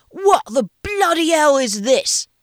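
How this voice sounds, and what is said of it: Bad put-on English accent. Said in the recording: “his Gordon Ramsay impression ... He adopted a really bad English accent.”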